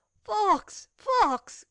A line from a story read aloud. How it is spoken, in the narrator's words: exclaimed the lady